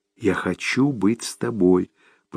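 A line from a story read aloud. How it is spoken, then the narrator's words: Whisper. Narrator (Russian): прошептал Томми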